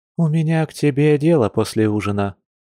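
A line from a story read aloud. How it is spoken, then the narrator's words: Sighing. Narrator (Russian): вздохнула Маша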